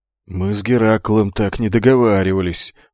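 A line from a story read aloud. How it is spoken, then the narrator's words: Gruff grumble after silence. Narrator (Russian): после долгого молчания буркнул солдат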